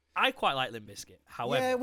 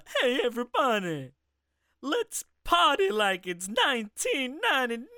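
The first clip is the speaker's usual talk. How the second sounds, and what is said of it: Imitates another person's voice. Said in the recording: “your Eddie Murphy impression ... that did sound a little bit like Hercules”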